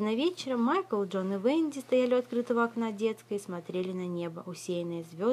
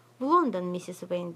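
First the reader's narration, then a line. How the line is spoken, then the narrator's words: Plain boy's voice. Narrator (Russian): ответил мальчик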